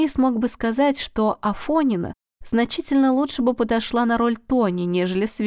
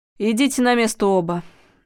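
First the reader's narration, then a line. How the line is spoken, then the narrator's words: Sighing. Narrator (Russian): вздохнула Людмила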